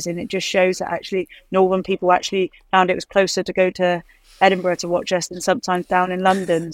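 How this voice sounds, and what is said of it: West Country English accent. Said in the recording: “I could tell by your accent ... Being from Somerset. ... West Country.”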